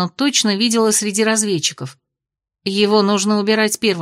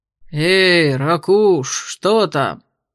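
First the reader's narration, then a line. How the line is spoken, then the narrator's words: Lazy question from partners. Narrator (Russian): лениво поинтересовались его напарники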